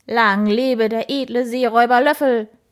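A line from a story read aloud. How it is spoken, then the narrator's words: Enthusiastic barking shout. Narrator (German): bellte begeistert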